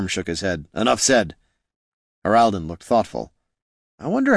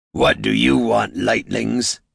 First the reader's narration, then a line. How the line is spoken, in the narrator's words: snarled the largest